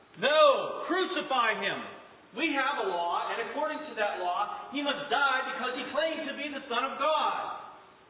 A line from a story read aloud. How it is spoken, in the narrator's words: the chief priests and officials shouted